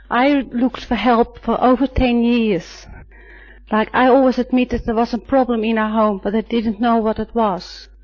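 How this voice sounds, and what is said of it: Dutch accent. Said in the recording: “I'm Dutch, as you may hear from my accent”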